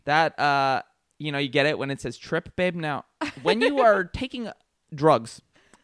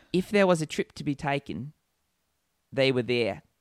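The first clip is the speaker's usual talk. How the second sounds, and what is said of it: Put-on Australian accent. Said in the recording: “Australian accent ... That was pretty good, wasn't it? That wasn't bad.”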